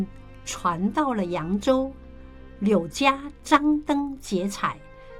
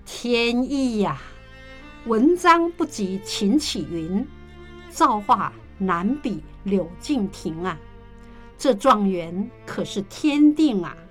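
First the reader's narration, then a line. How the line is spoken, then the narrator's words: Wry laugh. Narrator (Chinese): 乾隆不由苦笑道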